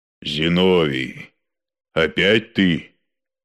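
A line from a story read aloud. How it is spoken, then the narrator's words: Deep bass voice. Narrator (Russian): сказал Фрол густым басом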